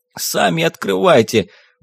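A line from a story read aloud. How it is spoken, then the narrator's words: Whimpering reply. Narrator (Russian): проскулил в ответ бородатый грабила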